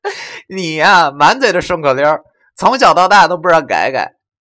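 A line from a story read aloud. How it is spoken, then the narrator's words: Half annoyed, half amused. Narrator (Chinese): 他又想气又想笑的对我说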